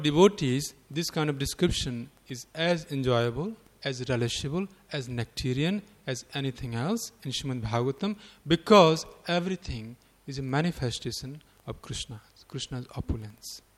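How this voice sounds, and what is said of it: Indian-accented English. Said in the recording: “my Indian accent ... you got Indian accent”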